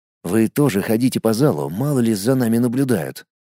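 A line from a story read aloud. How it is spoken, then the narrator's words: Quiet. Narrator (Russian): тихо произнес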